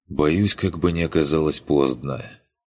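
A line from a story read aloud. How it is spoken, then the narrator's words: Sympathetic sigh. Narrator (Russian): вздохнул Курт с искренним сочувствием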